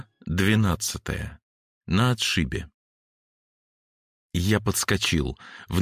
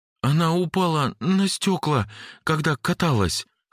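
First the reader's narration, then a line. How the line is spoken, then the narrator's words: Trembling voice. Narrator (Russian): сказал я дрожащим голосом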